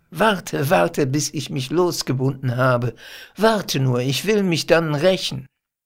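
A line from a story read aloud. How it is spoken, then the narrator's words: Laughing. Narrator (German): sagt er lachend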